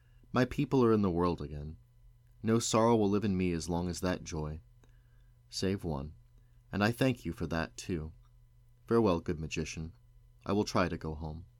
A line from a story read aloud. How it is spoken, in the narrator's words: she answered him gently, saying